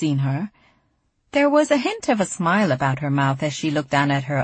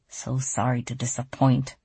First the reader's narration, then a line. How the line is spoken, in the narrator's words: she mumbled, too softly for anyone to hear